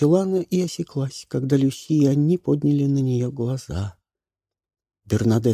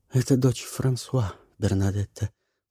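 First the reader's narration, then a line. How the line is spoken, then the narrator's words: Soft. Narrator (Russian): мягко сказала Люси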